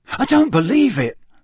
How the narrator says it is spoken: Ron said in a stunned voice

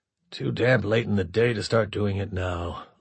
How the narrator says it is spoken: LeBlanc muttered

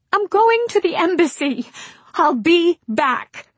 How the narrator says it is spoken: Baby cried

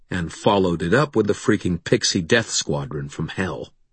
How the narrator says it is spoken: I growled

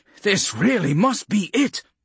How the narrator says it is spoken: Vaughn said over the roar of the aircraft's passing

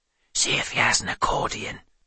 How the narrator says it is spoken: Doran whispered

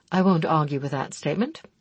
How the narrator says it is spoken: he replied evenly

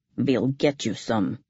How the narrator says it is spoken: he told me gruffly

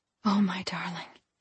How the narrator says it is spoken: she whispered once more

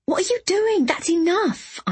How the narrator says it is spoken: I exclaimed

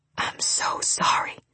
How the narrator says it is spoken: Ryder whispered

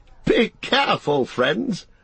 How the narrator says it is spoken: cried Gildor, laughing

